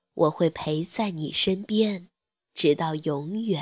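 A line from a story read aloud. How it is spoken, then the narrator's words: Soft, gentle mother. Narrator (Chinese): 妈妈轻声说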